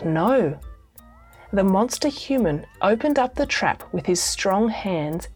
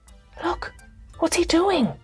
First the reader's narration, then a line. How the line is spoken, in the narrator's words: whispered Cuddlepie